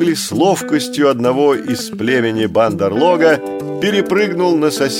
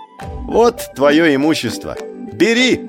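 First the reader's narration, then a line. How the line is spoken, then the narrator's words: Shouted. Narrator (Russian): крикнул Маугли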